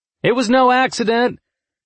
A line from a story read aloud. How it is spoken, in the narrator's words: someone shouted